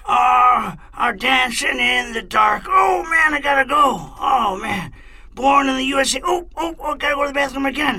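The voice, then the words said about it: Strained singing, imitates another person's voice. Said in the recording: “every time he sings, he sounds ... like he has to go to the bathroom really bad ... good impression.”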